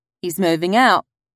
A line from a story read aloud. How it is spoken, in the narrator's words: said Annie, struggling to keep her voice steady